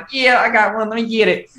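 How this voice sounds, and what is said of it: Imitated Southern US accent. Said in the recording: “he has a Southern accent. So I'm doing my best impression.”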